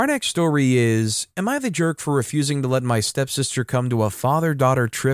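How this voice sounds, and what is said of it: Usual voice. Nothing is said of it.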